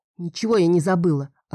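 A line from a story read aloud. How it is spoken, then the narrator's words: Snapped. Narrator (Russian): огрызнулась я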